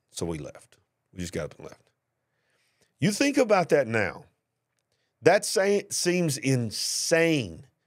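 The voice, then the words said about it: Southern US accent. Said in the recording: “the way you hear me talking, my accent there, I'm not from New York City ... down here in the South”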